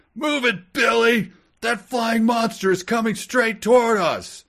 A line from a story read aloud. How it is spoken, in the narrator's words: Anthony yelled